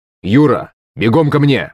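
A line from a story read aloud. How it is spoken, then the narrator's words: Shouting into a speaker. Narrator (Russian): крикнул он в динамик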